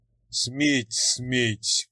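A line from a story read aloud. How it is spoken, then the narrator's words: Grumbling. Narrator (Russian): проворчал Персеуф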